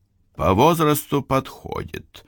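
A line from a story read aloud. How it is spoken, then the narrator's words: Calm leader's reply. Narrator (Russian): уже спокойно ответил глава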